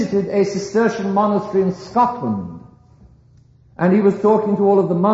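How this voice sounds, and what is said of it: Usual voice. Nothing is said of it.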